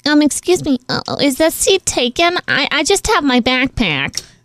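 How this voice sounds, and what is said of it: Girlish voice with Minnesota accent. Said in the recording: “Why does he sound like he's from Minnesota all of a sudden? ... He sounded like a girl, but he didn't sound like a girl from Minnesota.”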